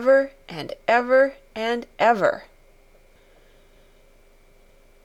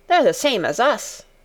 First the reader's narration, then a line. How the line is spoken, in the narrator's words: said Dickon